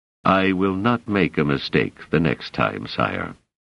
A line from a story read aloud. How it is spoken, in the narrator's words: said Demerzel coldly